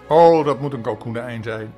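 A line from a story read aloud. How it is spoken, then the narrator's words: Plain. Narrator (Dutch): zei hij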